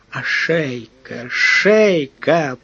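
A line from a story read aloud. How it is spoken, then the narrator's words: Moan. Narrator (Russian): простонал морской агент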